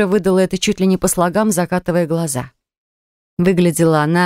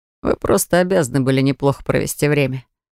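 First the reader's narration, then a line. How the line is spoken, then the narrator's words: Joyless snort. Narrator (Russian): без особой радости хмыкнул Фирс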